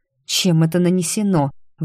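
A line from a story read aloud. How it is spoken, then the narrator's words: Grumbling. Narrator (Russian): ворчала я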